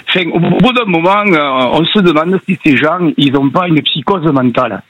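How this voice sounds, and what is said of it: Regional French accent. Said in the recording (French): “Je l'entends votre accent et j'adore déjà.”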